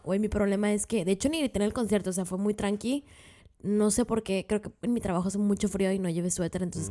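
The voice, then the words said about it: Hoarse raspy voice. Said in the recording (Spanish): “sigo teniendo voz de niña fresa, fumadora ... toda rasposa”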